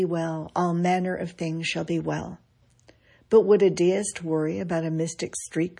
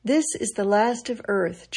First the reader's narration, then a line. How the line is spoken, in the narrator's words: John Quincy Adams said calmly, dying of a stroke